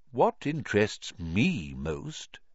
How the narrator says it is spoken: said Dumbledore gently

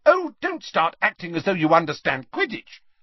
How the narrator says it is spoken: snapped Ginny

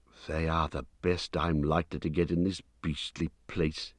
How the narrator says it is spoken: he muttered

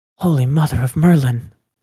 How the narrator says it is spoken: Aurelia gasped

